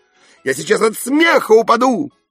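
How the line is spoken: Shout. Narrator (Russian): крикнул Кака

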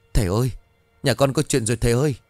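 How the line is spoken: Old woman's trembling voice. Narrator (Vietnamese): giọng của bà run rẩy

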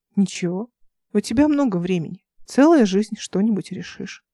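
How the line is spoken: Calm. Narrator (Russian): спокойно сказала

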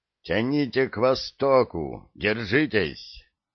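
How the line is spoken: Crackling radio static. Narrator (Russian): В наушнике рычало и трещало статикой и голосами

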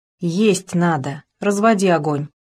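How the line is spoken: Calm. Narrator (Russian): спокойно сказала

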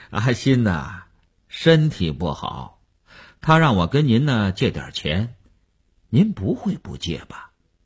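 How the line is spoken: Sly chuckle, blunt, phone. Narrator (Chinese): 那个人在电话里嘿嘿地笑了……直截了当地说

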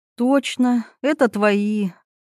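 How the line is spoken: Sighing. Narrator (Russian): вздохнула Милана

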